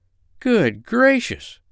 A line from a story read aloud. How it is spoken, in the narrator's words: cried the doctor